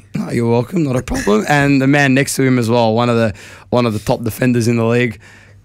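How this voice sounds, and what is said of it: Hoarse, strained voice. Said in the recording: “My voice is cooked. ... I sound like a broken trumpet”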